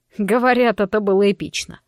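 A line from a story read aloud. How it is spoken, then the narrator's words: Short laugh. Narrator (Russian): хохотнул Гаррет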